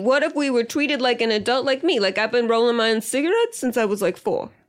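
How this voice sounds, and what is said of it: Child character with New York accent. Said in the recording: “you have like a New York accent.”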